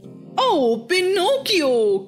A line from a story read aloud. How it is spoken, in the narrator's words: cried the fox